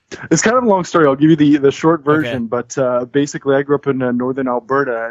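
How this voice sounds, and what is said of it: Canadian accent. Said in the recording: “as you can probably tell by the accent, I'm assuming, uh, ... is from Canada”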